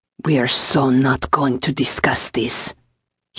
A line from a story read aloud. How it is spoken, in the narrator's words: snarled, his voice pitched low enough it wouldn't carry